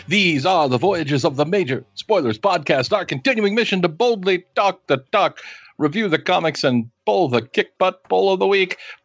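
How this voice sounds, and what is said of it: Star Trek captain impression. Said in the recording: “You need some work on your Picard impression, but you know, I give it a 3 out of 5 ... that was Janeway ... a little bit more work.”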